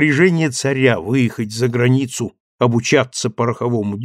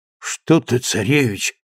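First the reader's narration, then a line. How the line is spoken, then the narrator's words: Moved old man muttering. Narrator (Russian): пробормотал растроганный старик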